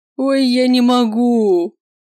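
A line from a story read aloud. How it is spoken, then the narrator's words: Moaning. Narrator (Russian): простонал Макс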